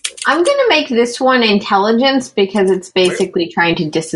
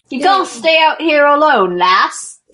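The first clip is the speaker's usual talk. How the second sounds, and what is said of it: Put-on character accent, drifting. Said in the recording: “the accent is migrating and it's amazing.”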